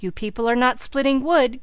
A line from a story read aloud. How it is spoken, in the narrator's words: cried Elnora